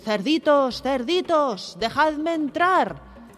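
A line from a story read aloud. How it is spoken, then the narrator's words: Wolf shouting. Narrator (Spanish): El lobo gritando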